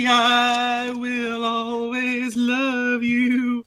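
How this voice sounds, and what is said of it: Sung impression. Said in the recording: “doing your impression”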